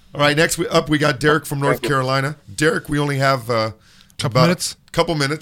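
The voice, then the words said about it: Strained, worn-out voice. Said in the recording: “Forgive my voice. I think I was preaching today.”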